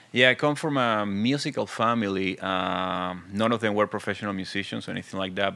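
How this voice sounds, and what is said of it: Very thick foreign accent. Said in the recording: “I'm original from Venezuela. As you can see, I have a very thick accent”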